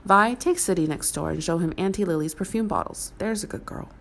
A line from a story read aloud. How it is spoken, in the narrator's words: Vera said smoothly